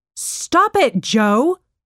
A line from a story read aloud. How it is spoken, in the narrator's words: shouted her mom from the living room